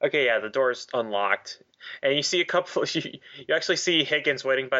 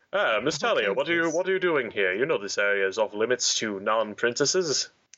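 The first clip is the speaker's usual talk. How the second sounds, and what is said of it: Butler voice imitating another person. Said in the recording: “Trying to do my butler voice, but apparently it turned into Sulu. ... Turned into George Takei. ... George Takei as the butler.”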